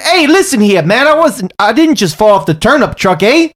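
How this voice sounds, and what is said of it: Exaggerated Canadian accent. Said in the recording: “it's funny with the Canadian accent”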